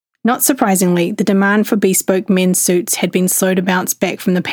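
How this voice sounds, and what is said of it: Usual voice. Nothing is said of it.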